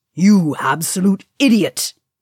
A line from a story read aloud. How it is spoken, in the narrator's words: He snarled again